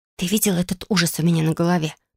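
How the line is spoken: Whisper. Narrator (Russian): прошептал я

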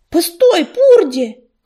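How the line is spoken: Shout. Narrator (Russian): крикнул он

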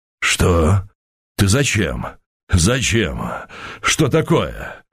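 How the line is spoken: Breathless bass. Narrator (Russian): Задыхающимся басом проговорил Быков

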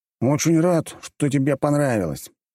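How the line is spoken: Displeased grumble. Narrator (Russian): недовольно пробурчал Вилли

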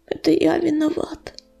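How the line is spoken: Hoarse whisper. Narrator (Russian): хриплым шепотом проговорил он

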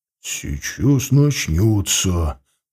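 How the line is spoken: Whisper. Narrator (Russian): прошептал Галатиан

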